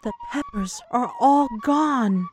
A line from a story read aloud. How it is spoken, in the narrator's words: she whispered